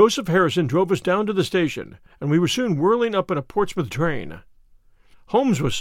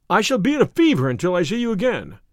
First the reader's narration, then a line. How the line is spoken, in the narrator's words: cried the diplomatist